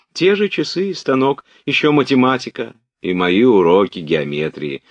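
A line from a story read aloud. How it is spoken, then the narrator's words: Joyful answer. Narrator (Russian): радостно отвечала княжна Марья, как будто ее уроки из геометрии были одним из самых радостных впечатлений ее жизни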